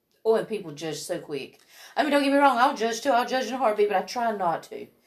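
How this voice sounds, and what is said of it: Southern US accent. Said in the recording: “I get judged for my accent ... I'm so few and far between with the Southern accent”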